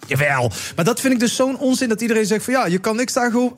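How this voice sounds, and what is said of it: Put-on Limburg Dutch accent. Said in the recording (Dutch): “Waarom doe ik trouwens een Limburgs accent?”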